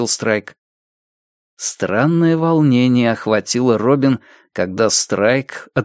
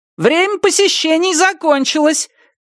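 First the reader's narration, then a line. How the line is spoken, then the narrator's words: Nurse shouting from doorway. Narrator (Russian): крикнула медсестра с порога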